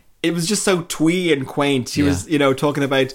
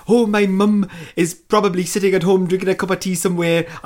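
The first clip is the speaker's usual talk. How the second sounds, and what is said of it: Poor Welsh accent drifting Jamaican. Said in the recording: “I'm doing a terrible Welsh accent. I just listed into Jamaica there for a second. I can't do a Welsh accent.”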